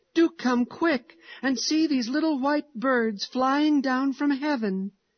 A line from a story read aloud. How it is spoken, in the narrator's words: he cried joyfully